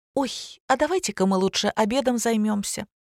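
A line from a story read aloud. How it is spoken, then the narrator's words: Cheerful. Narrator (Russian): весело вступила Лина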